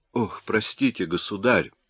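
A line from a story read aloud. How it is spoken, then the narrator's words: Embarrassed muttering. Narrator (Russian): пробормотал краснея Бувиль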